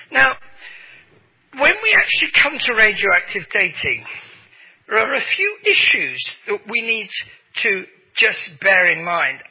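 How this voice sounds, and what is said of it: English accent. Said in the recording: “my English accent, which you think is so different”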